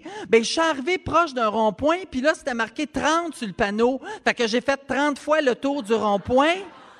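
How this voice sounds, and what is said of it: Imitates another person's accent. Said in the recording (French): “petit accent de Céline”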